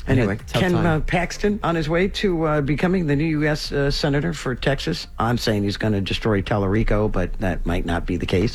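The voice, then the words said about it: Hoarse, fading voice. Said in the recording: “I'm losing my voice. ... I noticed. ... Allergies are really, really bad.”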